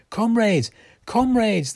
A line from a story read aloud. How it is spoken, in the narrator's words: they shouted